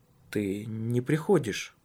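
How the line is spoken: Somewhat uncertain. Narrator (Russian): Несколько неуверенно произнес

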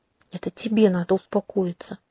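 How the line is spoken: Hiss. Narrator (Russian): прошипела я

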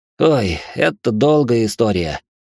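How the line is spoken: Sigh with a groan. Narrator (Russian): вздохнул я с кряхтением

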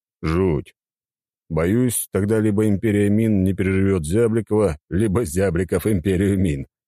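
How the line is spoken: Chuckle. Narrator (Russian): хохотнул

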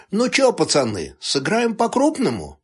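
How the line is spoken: Cheerful bandit's question. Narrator (Russian): Весело спросил один из бандитов

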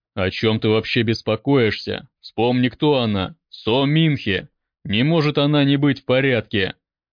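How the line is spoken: Barked, uncle. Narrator (Russian): Рявкнул дядя

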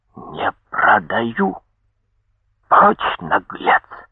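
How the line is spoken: Furious hoarse old man. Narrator (Russian): От ярости старик хрипло промолвил

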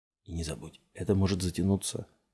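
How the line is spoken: Whispered warning. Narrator (Russian): шепотом предупредил Варинг

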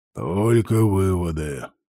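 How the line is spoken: Grumbling mimicry. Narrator (Russian): пробурчал Инфилиго, отважившись передразнить председателя

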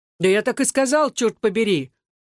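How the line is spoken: Shouted. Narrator (Russian): заорал Элкинс

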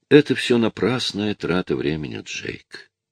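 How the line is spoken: Calm. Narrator (Russian): спокойно сказала Клэр

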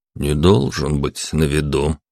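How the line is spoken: Suspicious mutter. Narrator (Russian): пробормотал Алан с подозрением

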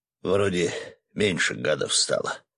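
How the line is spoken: Muttered. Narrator (Russian): пробормотал Свет

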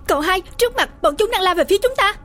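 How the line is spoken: Urgent shout. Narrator (Vietnamese): hét lên gấp gáp

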